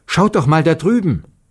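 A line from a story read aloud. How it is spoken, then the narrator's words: Sudden call. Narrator (German): Plötzlich rief Marussia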